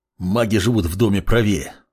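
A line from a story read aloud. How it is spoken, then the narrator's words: Curt growl. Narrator (Russian): коротко рыкнул Бурану в спину маг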